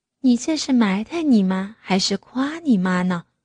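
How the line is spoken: Gentle. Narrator (Chinese): 岳母温柔的说

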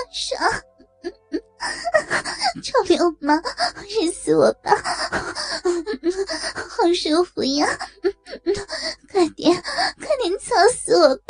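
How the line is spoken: Breathless moaning. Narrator (Chinese): 白云娇喘连连的说

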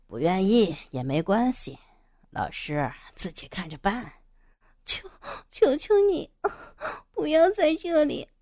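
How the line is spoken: Cold sneer. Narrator (Chinese): 杨野冷笑着

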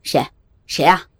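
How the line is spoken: Stern shout. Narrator (Chinese): 校长厉声喊道

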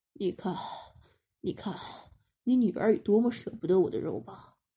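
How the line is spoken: Panting heavily. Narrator (Chinese): 他一边喘着粗气，一边对黄浦琪说

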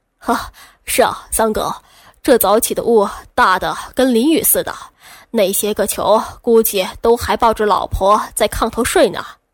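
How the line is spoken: Slightly dry voice. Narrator (Chinese): 三哥声音有些干涩

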